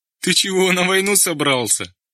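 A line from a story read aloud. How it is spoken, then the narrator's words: Laughing. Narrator (Russian): засмеялся Женька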